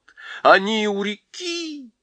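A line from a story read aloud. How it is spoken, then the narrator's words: Wild scream. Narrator (Russian): дико закричал он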